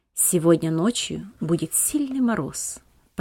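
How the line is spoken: Low undertone. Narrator (Russian): произнес он вполголоса

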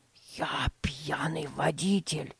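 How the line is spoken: Secretive whisper. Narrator (Russian): прошептал он, чтобы не услышали родители

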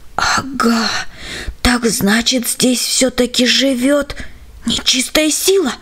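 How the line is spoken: Almost soundless breath. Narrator (Russian): выдохнул он почти беззвучно

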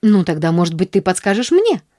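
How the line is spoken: Angry near-bark. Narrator (Russian): с гневом почти рявкнула Нэнси

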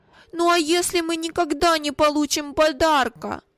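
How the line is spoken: Tearful timid objection. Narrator (Russian): Осмелился возразить плачущим тоном Вилли

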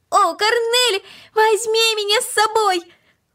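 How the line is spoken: Increasingly loud shouting. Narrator (Russian): Макс кричал все громче и громче

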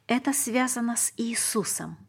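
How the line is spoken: Plain. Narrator (Russian): ответил Иосиф

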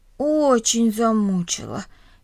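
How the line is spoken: Heavy sigh. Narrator (Russian): тяжело вздохнул Миша

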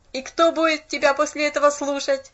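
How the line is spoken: Mocking sarcastic boy. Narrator (Russian): съязвил насмешливо парнишка

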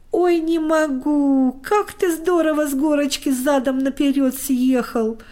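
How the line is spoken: Laughing. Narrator (Russian): хохотал Костик

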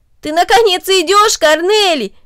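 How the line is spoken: Exclaimed. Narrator (Russian): воскликнул Дино

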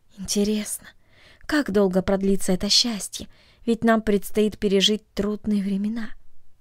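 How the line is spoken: Sighing, asking herself silently. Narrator (Russian): тайно вздохнула и спросила себя

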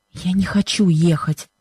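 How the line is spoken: Anguished whisper. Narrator (Russian): шепнула она Бену с выражением страдания

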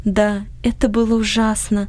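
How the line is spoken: Sighing. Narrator (Russian): вздохнула Анни

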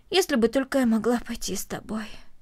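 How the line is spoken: Heavy sigh. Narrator (Russian): тяжело вздохнула Корнелли

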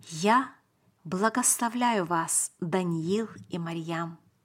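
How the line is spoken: Serious and gentle. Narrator (Russian): он сказал нам серьезно и мягко

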